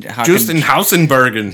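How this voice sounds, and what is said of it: Good put-on German accent. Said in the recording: “It's German. ... You got a good accent there.”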